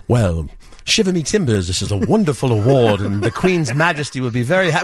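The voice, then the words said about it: Put-on British accent. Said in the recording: “doing a British accent”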